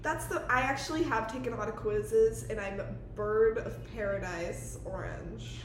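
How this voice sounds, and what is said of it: Country-sounding American accent. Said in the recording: “That's the most country sentence I've ever ... said ... sounded kind of country.”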